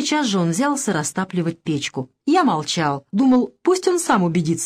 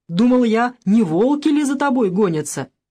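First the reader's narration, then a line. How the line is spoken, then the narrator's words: Loud, self-important. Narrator (Russian): Илья громко, важно заговорил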